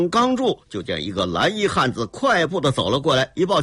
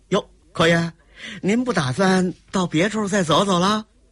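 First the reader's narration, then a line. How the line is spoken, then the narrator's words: Laughing. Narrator (Chinese): 雷鸣一笑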